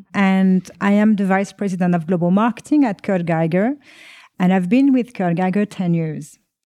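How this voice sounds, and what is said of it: French accent. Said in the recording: “I am French. You will probably hear that from my accent”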